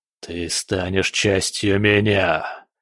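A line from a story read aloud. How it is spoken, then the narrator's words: Monster's growl. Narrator (Russian): прорычал монстр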